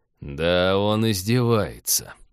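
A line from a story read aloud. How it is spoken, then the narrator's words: Almost admiring mutter. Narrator (Russian): почти восхищенно пробормотал Станислав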